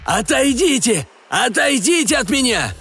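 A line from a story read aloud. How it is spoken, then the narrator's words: Shouting again. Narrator (Russian): Он опять закричал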